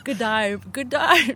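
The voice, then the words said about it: Bad put-on Australian accent. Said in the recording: “How's your Australian accent? ... She tries to do Australian yeah. accents for yeah. years. It goes Australian. It's a terrible accent.”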